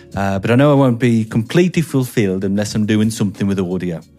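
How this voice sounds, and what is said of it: Inconsistent put-on regional English accent. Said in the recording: “This is all over the shop, this accent.”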